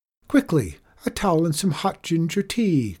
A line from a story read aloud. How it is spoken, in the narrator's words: cried the old lady